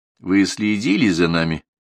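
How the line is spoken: Dry question. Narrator (Russian): сухо спросил

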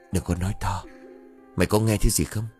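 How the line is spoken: Whispered. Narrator (Vietnamese): Hậu thì thầm

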